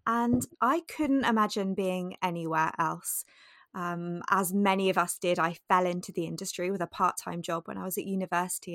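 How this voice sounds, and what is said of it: British accent. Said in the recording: “If you cannot hear from my accent, I am based in the UK.”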